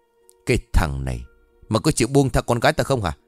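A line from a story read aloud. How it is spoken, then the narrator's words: Harsh gritted shout. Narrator (Vietnamese): ông gần giọng quát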